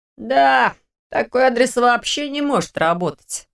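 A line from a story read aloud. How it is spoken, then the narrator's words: Grumbled. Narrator (Russian): проворчал Лерик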